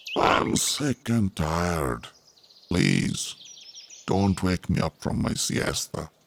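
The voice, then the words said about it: Sleepy character voice. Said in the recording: “said in a sleepy voice”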